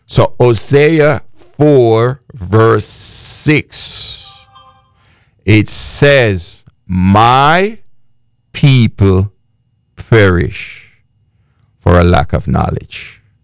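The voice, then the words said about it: Speaks with a noticeable accent. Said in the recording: “because of my accent”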